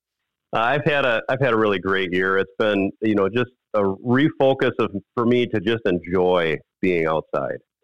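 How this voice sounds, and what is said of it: Slightly raspy voice. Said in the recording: “Your voice sounds a little bit better than when I talked to you last week... I've been a little raspy recovering from having been sick”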